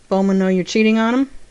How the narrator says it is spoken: John asked dryly

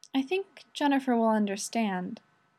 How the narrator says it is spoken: Rodney whispers

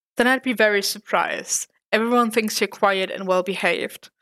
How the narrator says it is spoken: said Foggy

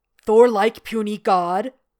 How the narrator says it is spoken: Hulk booms inquisitively

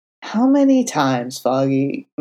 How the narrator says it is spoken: Matt groaned from the floor, irritated but no longer crying

